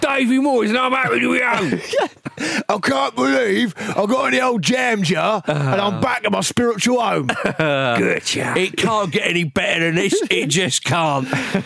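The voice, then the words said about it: Cockney accent impression of David Moyes. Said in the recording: “Did he say it in a Cockney accent?”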